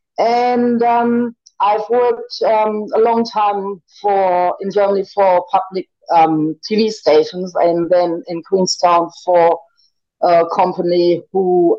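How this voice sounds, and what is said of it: German accent. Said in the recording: “I'm originally born in Hamburg, Germany. That's where this beautiful, not beautiful accent is coming from.”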